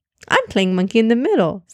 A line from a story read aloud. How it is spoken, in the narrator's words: Zaynab said cheerfully